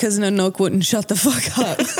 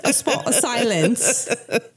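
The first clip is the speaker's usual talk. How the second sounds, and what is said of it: Mock English accent. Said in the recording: “are we in England? ... Not with that accent.”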